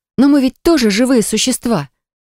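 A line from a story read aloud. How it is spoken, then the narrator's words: Exclaimed. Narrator (Russian): воскликнула я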